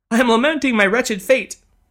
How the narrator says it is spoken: sobbed the lady, once again on the verge of tears

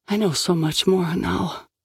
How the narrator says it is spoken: Asante said quietly

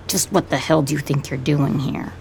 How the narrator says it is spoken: He says it flatly

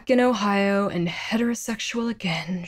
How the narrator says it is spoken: she sighed

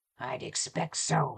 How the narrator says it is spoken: he growled, and the rough sound

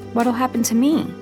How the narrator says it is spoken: I asked, my voice small and squeaky

